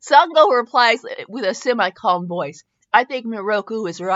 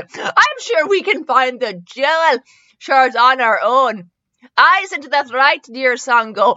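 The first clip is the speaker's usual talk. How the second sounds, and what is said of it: Put-on Swedish accent. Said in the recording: “Do you like my Swedish accent?”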